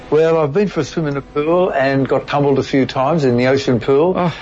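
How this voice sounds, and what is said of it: Strong Australian accent. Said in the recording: “How's that for sounding Australian? ... You sound very Australian today. You're having a particularly Australian day.”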